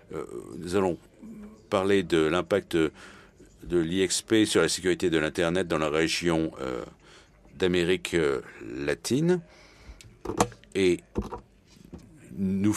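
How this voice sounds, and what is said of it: Slight foreign accent in French. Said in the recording (French): “vous allez reconnaître un petit accent.”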